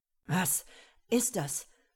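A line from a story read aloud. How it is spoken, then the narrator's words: Breathless question. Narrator (German): fragte atemlos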